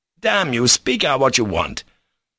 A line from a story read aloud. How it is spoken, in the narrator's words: Ivan cried angrily at last, passing from meekness to violence